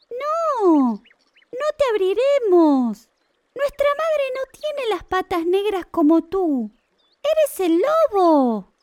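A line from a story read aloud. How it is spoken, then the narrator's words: Young goats exclaiming together. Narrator (Spanish): las cabritas exclamaron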